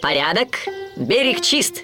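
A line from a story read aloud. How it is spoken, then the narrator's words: Shouted. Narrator (Russian): крикнул Вуди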